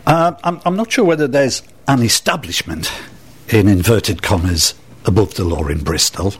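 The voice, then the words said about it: Northeast English accent. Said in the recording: “I'm not a Bristolian, as you can probably tweak from my accent ... I'm a northeasterner. I'm from Sunderland.”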